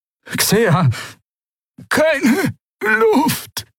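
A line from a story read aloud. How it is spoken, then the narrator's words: Croaked. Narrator (German): krächzte sie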